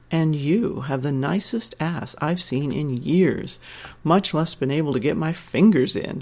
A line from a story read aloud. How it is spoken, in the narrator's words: laughed deep in her throat